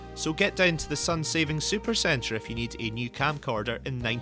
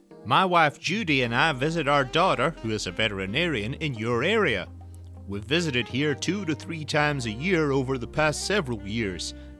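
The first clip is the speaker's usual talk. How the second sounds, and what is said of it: Put-on accent reading a letter. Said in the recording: “With apologies for the accent,”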